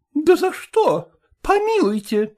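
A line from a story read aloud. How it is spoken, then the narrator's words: Exclaimed. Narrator (Russian): воскликнула Колкина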